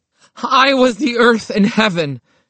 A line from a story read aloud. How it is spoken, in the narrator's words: shouted the chief of police